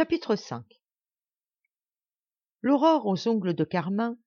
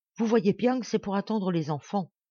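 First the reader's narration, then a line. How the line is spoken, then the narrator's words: Stubborn murmur. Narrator (French): murmura Festinard qui tenait à son idée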